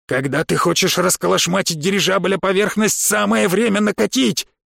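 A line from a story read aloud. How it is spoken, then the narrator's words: Shouting while running. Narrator (Russian): крикнул на бегу механик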